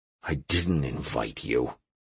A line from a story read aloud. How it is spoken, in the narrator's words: I muttered